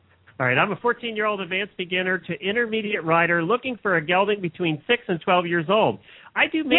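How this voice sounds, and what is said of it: Usual voice. Nothing is said of it.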